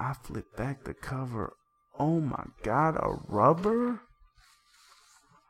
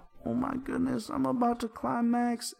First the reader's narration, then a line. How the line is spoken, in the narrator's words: she cries out